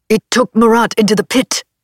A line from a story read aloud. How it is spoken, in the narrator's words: Stephen barked